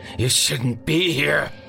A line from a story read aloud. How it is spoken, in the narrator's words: finally snarled